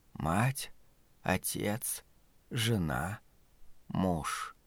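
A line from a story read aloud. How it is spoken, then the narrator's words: Old woman whispering. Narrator (Russian): прошептала матушка Абагейл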